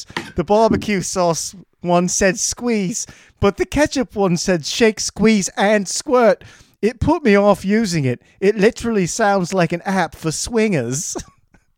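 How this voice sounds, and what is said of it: Bad put-on British accent. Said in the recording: “I'm gonna do a British accent that'll suck.”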